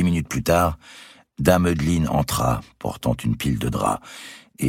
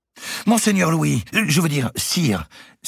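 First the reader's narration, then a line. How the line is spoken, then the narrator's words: Seamstress crying out. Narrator (French): s'écria la lingère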